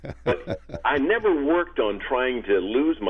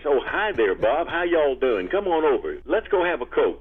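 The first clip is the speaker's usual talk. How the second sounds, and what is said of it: Thick Southern US accent. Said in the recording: “the western Kentucky and western Tennessee dialect, that's a thick one ... I'll be talking like this ... my dialect, my southern accent”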